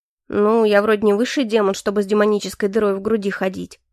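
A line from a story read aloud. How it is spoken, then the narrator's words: Snorting, wry. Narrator (Russian): хмыкнул Калипсо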